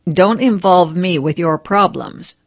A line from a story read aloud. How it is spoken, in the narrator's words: said Ding Xi